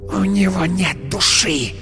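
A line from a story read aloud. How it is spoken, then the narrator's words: Hissed. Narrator (Russian): прошипела она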